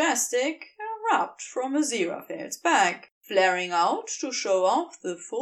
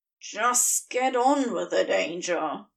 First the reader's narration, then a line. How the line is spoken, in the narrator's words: Crowley hisses